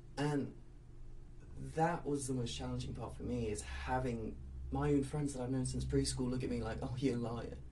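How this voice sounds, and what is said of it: English accent. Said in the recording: “I gave myself an English accent”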